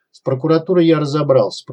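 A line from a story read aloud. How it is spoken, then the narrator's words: Grumbling. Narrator (Russian): проворчал Покатилов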